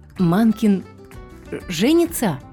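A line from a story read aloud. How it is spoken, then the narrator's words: Nearly stammering. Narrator (Russian): Бедная Амитея чуть не заикалась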